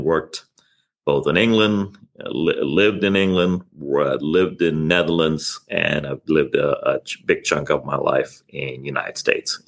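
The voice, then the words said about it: Blended mid-Atlantic accent, somewhat Texan. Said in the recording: “I couldn't really place your accent in any one country because it sounds almost like Texan to me sometimes when I hear you talk. It's like it could be from anywhere... It's a blend. It's a mid-Atlantic”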